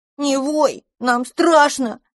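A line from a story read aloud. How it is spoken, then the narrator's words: Squeaky sobbing little dragon. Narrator (Russian): пискнул дракончик, захлебываясь слезами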